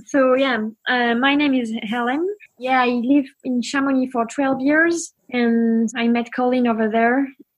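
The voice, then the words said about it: French accent in English. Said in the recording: “I'm French, so my accent is not so good.”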